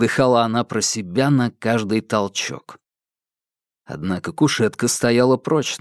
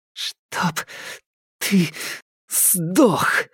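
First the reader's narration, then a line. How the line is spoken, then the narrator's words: Hiss through teeth. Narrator (Russian): сквозь зубы шипела Алька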